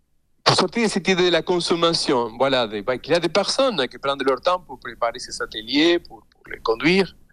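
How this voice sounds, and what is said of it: Non-native accent in French. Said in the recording (French): “je parle dans une langue qui n'est pas ma langue maternelle, donc j'ai un accent”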